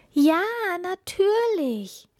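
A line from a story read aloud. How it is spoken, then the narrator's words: Called happily. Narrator (German): rief die Prinzessin froh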